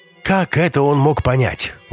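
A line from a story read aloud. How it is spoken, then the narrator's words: Exclaimed. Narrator (Russian): воскликнула Леся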